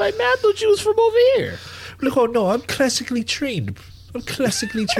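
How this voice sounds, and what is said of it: Usual voice. Nothing is said of it.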